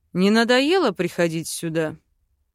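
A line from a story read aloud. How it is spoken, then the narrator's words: Grumbled. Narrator (Russian): проворчал папа Крей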